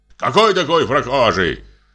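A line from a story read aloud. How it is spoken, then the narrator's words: Angry fearful shout. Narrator (Russian): Сердито кричит сторож, желая замаскировать криком свой страх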